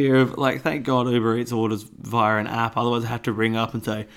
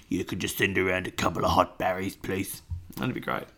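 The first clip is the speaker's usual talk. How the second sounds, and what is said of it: Imitates another person's voice. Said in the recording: “That's the voice you use when you're ordering food. ... I like to pretend I'm Dave Hughes when I'm ordering food ... that impression, because it's not very good.”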